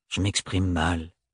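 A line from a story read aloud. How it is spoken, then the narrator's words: Gruff mumbling. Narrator (French): mâchonna-t-il d'un ton bourru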